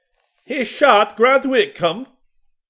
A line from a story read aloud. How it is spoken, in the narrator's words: bellowed Walrus